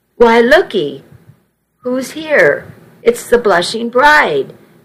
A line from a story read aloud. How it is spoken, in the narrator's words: Nana cried happily